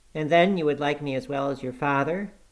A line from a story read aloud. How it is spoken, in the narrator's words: observed he more cheerfully